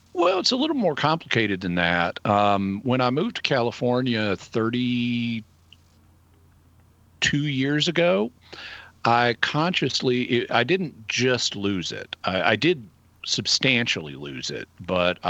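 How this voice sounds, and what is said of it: Thick Arkansas accent. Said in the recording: “Arkansas accent. It's coming on pretty thick these days.”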